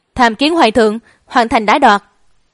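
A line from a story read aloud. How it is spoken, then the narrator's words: Loud formal report. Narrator (Vietnamese): thị vệ lớn tiếng bẩm báo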